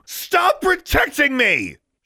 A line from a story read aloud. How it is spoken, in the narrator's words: she shouted, so loudly they might have heard her in the next compartment